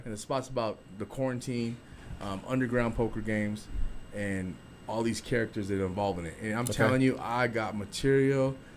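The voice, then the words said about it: Hoarse voice. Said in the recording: “you hear my voice hoarse? ... because I laugh so hard”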